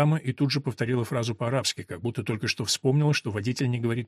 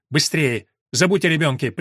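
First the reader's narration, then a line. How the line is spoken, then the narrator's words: Sharp shout. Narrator (Russian): прикрикнул он на Елену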